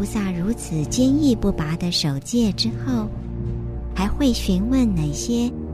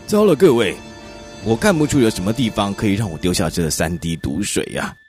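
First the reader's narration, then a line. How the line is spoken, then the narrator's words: Loud ringing announcement. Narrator (Chinese): 苏塔萨那就用洪亮的声音向大家宣布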